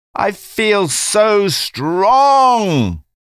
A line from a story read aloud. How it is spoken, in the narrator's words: she exclaimed over and over again